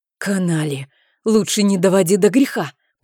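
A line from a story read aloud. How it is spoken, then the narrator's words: Menacing, through gritted teeth. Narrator (Russian): процедил угрожающий барон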